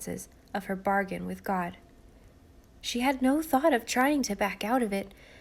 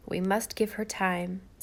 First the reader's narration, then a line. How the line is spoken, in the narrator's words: said Susan